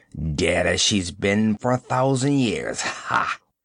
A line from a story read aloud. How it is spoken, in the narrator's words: he snarled